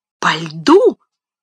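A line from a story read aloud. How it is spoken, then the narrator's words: Exclaimed in chorus. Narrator (Russian): хором воскликнули все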